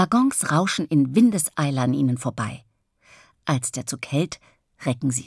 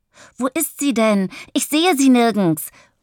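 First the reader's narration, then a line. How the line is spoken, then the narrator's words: Excited call. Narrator (German): ruft Bennett aufgeregt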